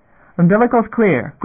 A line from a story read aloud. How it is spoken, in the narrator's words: Graf shouted across, off calm